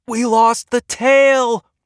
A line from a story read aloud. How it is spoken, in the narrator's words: the pilot screamed